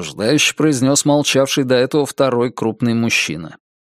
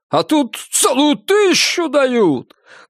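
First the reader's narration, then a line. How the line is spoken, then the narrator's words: Loud shrill man. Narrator (Russian): громко и как-то визгливо произнес в ответ на упрек мужик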